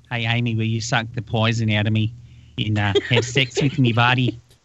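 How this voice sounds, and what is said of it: Put-on New Zealand accent. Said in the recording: “she'd have the accent, and that's totally hot ... Now we've offended New Zealanders.”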